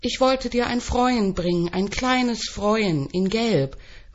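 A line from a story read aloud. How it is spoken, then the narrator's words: Shout from the floor. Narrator (German): ruft am Boden liegend an die Zimmerdecke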